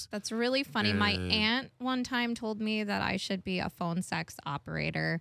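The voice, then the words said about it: Radio broadcaster-style voice. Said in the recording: “has an amazing radio voice ... you got a solid broadcaster voice”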